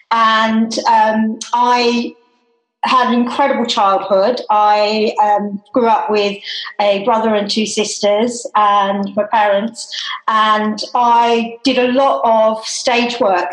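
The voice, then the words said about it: Australian accent. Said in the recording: “you sometimes can hear it in my voice, is that I am Australian”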